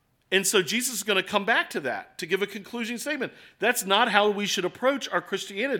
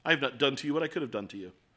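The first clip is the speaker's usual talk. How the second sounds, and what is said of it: Haughty put-on British accent. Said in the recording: “I think in a British accent every time. I think haughtiness... I have a terrible accent.”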